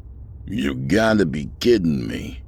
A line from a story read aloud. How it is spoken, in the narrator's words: he grumbled